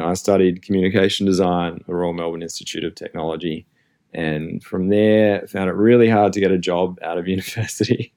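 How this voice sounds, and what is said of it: Australian accent. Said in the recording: “I'm Australian, you can probably hear my accent”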